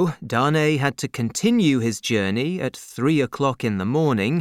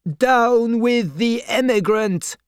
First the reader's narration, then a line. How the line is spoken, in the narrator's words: many shouted